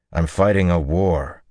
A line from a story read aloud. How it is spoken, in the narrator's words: he told her harshly